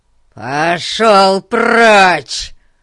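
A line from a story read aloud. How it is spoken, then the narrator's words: Roaring. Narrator (Russian): взревел Гун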